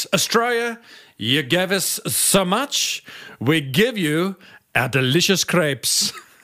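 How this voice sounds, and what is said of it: Bad put-on French accent. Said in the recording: “There's a bad French accent at the end”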